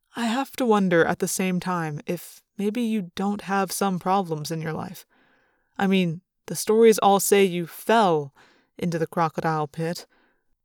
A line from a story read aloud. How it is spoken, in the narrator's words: sighed